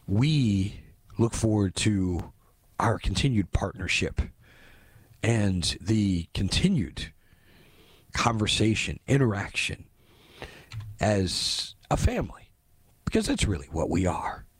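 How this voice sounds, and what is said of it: Voice slightly off. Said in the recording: “my voice is a little bit off. The allergies have finally caught up with me.”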